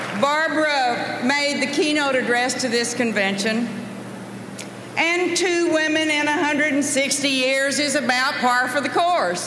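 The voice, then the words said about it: Texas accent. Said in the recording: “what a real Texas accent sounds like”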